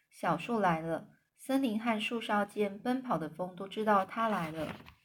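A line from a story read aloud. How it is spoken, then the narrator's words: Soft singing. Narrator (Chinese): 轻声的唱了起来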